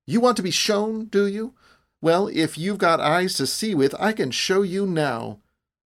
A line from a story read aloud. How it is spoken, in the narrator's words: cried